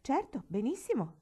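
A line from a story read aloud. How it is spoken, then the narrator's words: Plain. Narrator (Italian): rispose Davy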